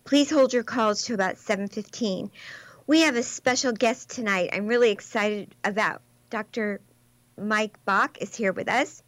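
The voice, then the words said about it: Choked-up, catching voice. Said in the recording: “I'm having a little choked up right now. ... Something in my throat.”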